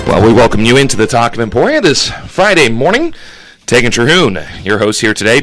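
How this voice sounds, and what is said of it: Out of breath, breathless speech. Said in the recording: “you can tell I'm a little out of breath ... trying to catch my breath here”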